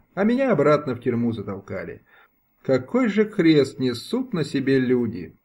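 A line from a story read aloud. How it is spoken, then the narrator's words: Sigh. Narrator (Russian): вздохнула за всех Ганна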